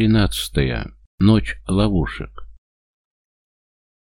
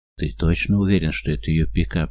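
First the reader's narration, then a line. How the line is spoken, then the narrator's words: Whispered question. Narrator (Russian): шептом спрашивает Том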